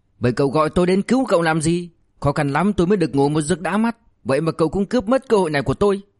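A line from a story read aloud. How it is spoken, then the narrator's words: Embarrassed angry shout. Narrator (Vietnamese): Lục Minh Phi ngượng quá hóa giận, hét lên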